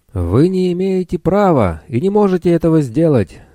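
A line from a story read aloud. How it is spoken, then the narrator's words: Angry elderly woman shouting. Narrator (Russian): гневно закричала пожилая Матрона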